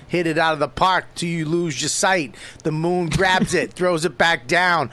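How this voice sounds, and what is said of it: Boston accent. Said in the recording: “your shitty Boston accent”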